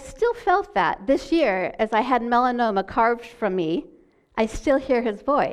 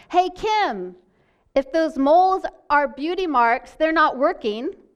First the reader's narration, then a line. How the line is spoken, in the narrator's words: he just yelled out randomly, he said